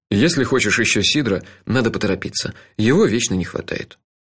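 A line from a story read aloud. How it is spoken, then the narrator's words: Casual, matter-of-fact announcement. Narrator (Russian): объявил мой спутник, будничным тоном добавил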